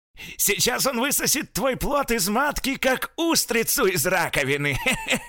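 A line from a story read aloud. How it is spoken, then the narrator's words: Old man shouting, then laughing. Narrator (Russian): крикнул старик и принялся смеяться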